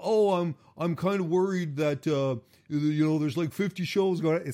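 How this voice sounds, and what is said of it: Don Callis impression. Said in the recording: “my Don Callis impersonation”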